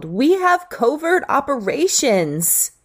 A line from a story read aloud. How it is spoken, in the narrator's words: she yelled